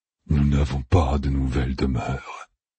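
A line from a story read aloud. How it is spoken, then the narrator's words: Breathed softly. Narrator (French): souffla Loustérine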